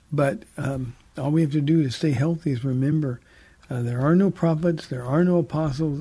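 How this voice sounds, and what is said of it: Tired, strained voice. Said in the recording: “My voice is a little tired from yesterday ... I could tell ... clear it up your throat”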